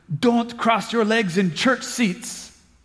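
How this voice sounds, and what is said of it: Thick Greek accent. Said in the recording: “in this thick Greek accent”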